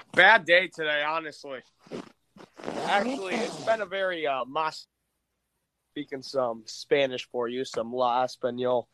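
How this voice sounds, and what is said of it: Sick, rough-sounding voice. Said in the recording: “Woke up feeling sick as fuck ... As you can kind of tell, my voice is kind of fucked right now.”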